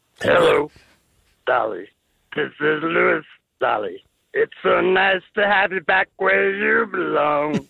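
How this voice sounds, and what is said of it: Imitates another person's singing voice. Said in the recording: “What is that impression you're going to do ... Louis Armstrong ... two musical impressions back to back”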